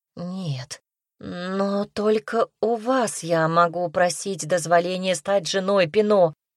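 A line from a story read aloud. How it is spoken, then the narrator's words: Stammering. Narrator (Russian): заикаясь, произнесла она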